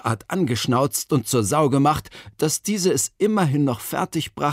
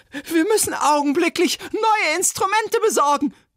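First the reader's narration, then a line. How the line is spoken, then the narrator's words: Shrill shout. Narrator (German): rief schrill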